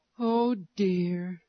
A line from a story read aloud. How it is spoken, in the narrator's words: sighed